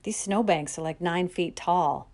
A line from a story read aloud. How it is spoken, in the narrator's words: Matt grumbled